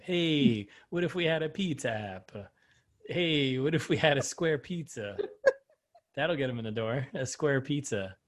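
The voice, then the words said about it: Exaggerated Italian accent. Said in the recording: “I'm also trying to do it in his Italian accent.”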